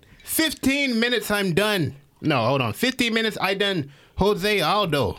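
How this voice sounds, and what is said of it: Put-on Irish accent. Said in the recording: “Can you do the Irish accent?”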